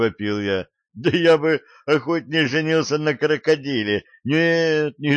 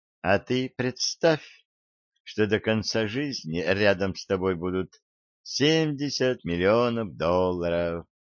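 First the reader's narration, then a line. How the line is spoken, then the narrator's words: Quiet. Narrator (Russian): тихо сказала она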